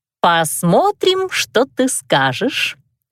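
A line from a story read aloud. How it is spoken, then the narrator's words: Playful drawl. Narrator (Russian): шутливо протянула я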